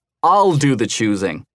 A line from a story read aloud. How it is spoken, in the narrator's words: he roared